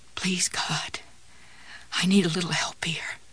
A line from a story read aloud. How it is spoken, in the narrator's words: Jessie whispered